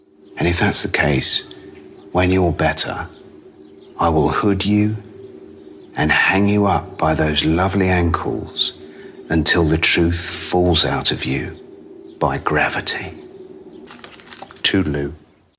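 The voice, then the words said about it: Sinister British accent. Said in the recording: “How is that for sinister aplomb? ... I'm a sucker for a British accent”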